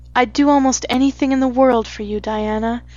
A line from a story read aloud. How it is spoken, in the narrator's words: said Anne sadly